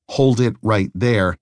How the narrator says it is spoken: He shouted

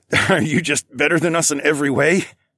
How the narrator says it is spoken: I laughed, as I tried to only breathe through my mouth

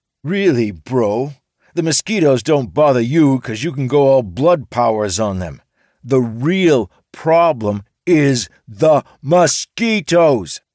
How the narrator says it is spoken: Mike was yelling now

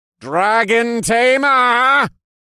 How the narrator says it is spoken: Lord Caldera shouted, and the rest of the cultists echoed his words like a chant

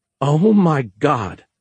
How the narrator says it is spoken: Anna said, and began to laugh hysterically

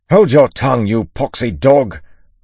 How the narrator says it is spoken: Lorien roared back

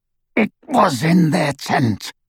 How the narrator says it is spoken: rasped Greyback

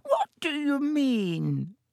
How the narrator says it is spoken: said Dibbitt with a squeak in his voice

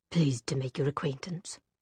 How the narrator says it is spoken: Gideon muttered

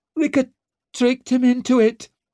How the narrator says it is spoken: squealed Dancer

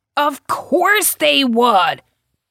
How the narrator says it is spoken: He shouted

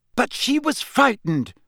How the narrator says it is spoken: Hermione burst out angrily

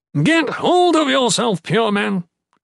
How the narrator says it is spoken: Athan roared again

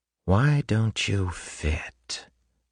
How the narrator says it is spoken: Ruin whispered in her head

